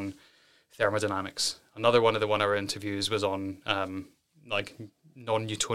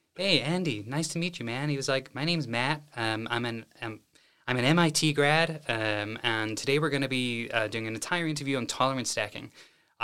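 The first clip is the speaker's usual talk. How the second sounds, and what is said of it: Terrible put-on American accent. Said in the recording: “I'm going to put on a terrible American accent now”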